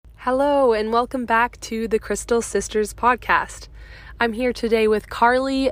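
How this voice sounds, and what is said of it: Hoarse, congested voice. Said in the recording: “apologize for my voice. I have a bit of a cold”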